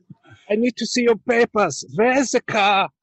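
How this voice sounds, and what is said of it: Exaggerated stereotypical German accent. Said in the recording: “dial up the German accent? Could you make it a little stronger?”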